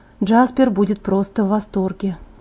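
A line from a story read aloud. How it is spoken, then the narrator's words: Quiet mutter to self. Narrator (Russian): тихо сказала я себе под нос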